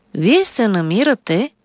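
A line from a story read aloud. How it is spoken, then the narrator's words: Calm doctor speaking. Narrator (Bulgarian): спокойно заговори лекар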